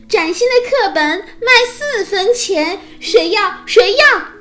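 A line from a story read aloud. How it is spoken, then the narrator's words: Loud hawking cry. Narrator (Chinese): 匹诺曹吆喝的声音高又高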